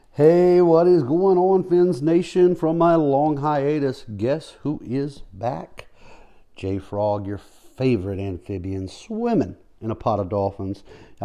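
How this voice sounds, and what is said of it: Chipper, upbeat voice. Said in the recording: “my voice is a little more chipper today”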